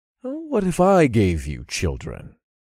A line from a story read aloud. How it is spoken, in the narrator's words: I asked